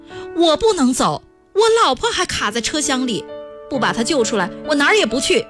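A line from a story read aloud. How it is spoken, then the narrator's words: Shouting. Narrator (Chinese): 单儿松挣扎着边喊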